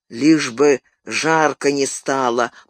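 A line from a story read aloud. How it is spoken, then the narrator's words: Grumble. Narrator (Russian): проворчал Сэм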